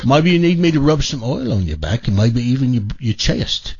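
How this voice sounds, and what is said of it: Poor put-on British accent. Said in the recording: “That wasn't a very good British accent.”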